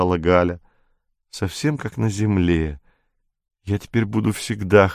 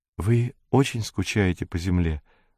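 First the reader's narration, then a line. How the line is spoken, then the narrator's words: Timid question. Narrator (Russian): робко спросила Зойка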